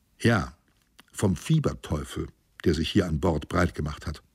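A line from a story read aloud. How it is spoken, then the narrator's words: Plain. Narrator (German): sagte ich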